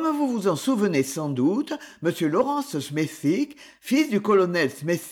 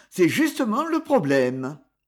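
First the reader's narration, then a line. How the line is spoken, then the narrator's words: Man's curt reply. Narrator (French): répondit sèchement l'homme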